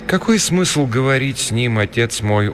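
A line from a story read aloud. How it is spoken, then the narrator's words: Gloomy. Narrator (Russian): уныло проговорила Рита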